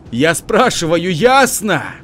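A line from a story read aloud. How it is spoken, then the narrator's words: Yelling. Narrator (Russian): заорал Тимур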